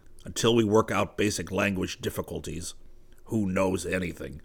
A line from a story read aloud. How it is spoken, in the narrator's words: muttered